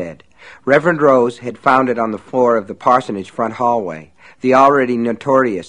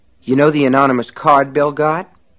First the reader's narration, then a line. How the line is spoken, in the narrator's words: Pitching his voice more reasonably, he said